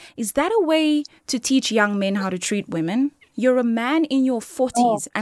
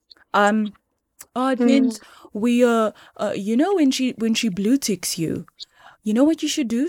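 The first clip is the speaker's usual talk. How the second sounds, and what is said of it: Imitating a famous actor's voice. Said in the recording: “I saw a very famous actor. He used to act in Generations. Speak about, gents, you know, when, and I'm doing the voice”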